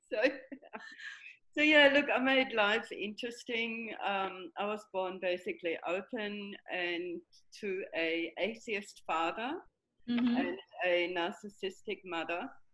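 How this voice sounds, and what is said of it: German accent. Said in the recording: “I was trying to pick your accent ... I think I have Buckley's now, basically, to get rid of my German accent.”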